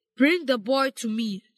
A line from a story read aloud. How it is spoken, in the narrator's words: said the king